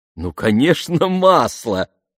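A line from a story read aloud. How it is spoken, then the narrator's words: Laughing. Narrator (Russian): рассмеялась миссис Робинс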